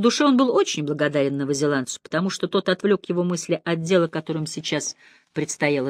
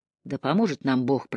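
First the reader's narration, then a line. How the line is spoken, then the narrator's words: Muttering. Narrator (Russian): пробормотал Миллер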